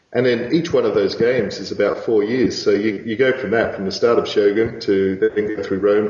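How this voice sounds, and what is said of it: Australian accent. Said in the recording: “I'm detecting a bit of an accent. Are you, you're Irish maybe?... Australian, just Irish when I drink.”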